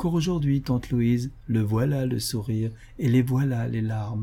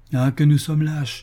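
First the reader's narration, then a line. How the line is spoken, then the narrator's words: Abrupt shift, exclaiming. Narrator (French): s'écria Marceline, changeant de ton brusquement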